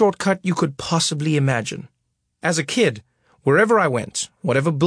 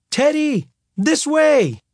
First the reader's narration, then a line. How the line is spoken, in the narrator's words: I yelled